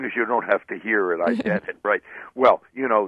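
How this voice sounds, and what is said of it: Usual voice. Nothing is said of it.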